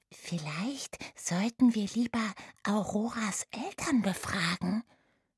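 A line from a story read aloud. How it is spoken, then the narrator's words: Whisper. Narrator (German): flüsterte Oda Remus zu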